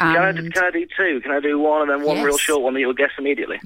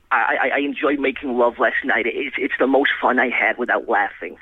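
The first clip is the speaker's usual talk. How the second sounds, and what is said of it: Imitates another person's voice. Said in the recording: “That is an excellent impression ... Nelson Mandela!”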